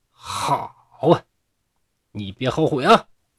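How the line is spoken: Angry monk. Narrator (Chinese): 这和尚很愤怒，就说

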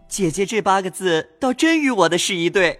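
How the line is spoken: Sinister laugh, asking. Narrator (Chinese): 阴笑问

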